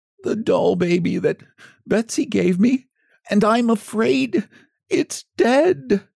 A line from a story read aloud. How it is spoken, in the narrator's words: poor Jimmy Scarecrow sobbed